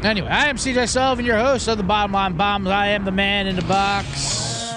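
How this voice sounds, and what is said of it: Put-on radio host voice. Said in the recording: “Really leaning into this whole radio voice thing.”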